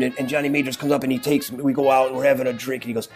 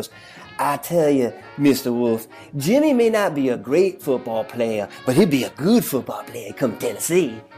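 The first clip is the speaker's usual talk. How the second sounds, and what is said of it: Bad southern drawl impression. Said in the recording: “He had this southern drawl. That was a bad one.”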